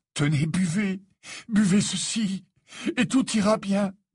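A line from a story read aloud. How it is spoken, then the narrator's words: Desperate tone. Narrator (French): dit Harry d'un ton désespéré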